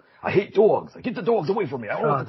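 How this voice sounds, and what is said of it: Thick New York accent. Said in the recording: “he's got like the thick New York accent”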